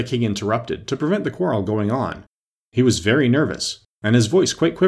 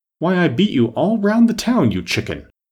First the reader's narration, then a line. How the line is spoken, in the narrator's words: the lion replied angrily